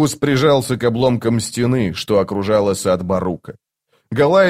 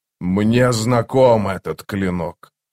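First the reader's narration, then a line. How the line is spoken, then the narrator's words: Demonic growl. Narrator (Russian): прорычал демон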